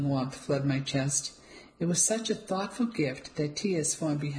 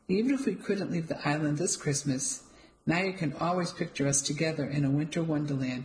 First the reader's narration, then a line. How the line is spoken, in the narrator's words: said and chuckled to himself